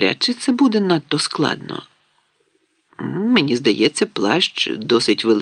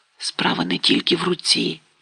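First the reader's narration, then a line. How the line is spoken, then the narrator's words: Whisper. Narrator (Ukrainian): прошепотів він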